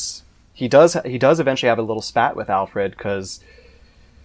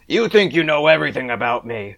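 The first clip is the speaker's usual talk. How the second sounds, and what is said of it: Imitates another person's voice, upset. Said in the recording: “my really bad Kevin Conroy impression... it's not really a Kevin Conroy impression, it's just me getting upset”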